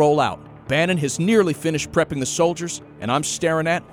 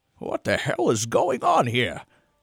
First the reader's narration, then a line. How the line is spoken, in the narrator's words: His voice was different